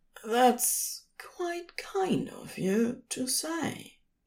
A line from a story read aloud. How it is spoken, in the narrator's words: he said quietly